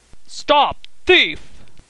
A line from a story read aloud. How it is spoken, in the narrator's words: roared Mr